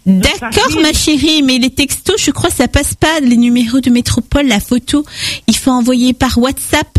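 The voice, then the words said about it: Small cutesy put-on voice. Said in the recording (French): “Pourquoi tu changes de voix comme ça? ... Tu prends une petite voix comme ça”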